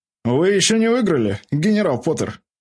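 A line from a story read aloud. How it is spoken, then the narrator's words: Barked. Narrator (Russian): рявкнул Драко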